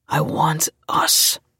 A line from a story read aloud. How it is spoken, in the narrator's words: he said in a gruff voice